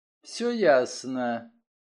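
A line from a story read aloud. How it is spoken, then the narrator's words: Quiet. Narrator (Russian): тихо сказала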